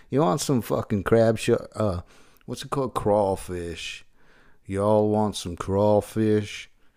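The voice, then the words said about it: Put-on American accent. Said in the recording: “I'm trying to do accents this week as well. Because I can do American, like New Yorker.”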